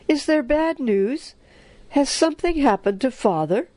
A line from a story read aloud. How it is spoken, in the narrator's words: cried